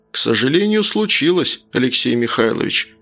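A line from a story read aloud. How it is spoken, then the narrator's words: Dry reply, heavy sigh. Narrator (Russian): сухо ответил тот, не удержавшись от тяжелого вздоха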